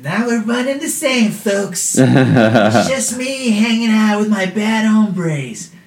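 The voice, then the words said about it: Imitates another person's voice. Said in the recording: “my Trump impression ... the Trump voice”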